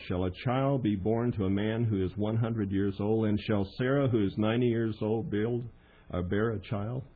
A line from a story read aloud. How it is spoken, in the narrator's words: His laugh was something along this tenor